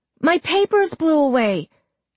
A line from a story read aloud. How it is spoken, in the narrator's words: the boy cried